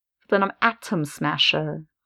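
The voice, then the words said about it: Exaggerated crisp T sounds. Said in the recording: “adopt a accent that really just accentuates the T in words”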